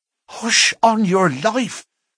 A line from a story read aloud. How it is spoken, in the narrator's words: cried the miner, standing still in alarm and gazing in amazement